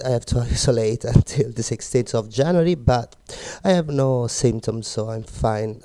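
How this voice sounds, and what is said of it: Slightly sick, cold-affected voice. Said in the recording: “Pardon my voice, but unfortunately I got COVID ... A bit of cold.”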